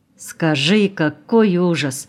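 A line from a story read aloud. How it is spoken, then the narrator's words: Sighing. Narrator (Russian): вздохнула Миленка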